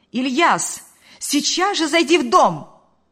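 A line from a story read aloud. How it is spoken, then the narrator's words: Shouted. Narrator (Russian): крикнула она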